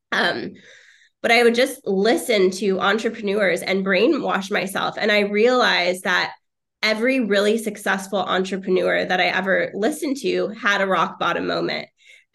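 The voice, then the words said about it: Slightly raspy, sick-sounding voice. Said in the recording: “I'm a little bit sick if I sound a little raspy right now.”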